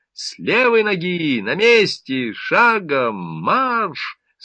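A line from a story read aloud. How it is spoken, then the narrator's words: Rich commanding voice. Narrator (Russian): сочным голосом скомандовала методистка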